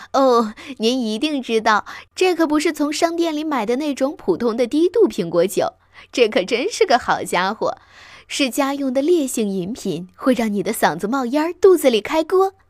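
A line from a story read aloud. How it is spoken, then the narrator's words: Breathless sigh. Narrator (Chinese): 他喘息着叹道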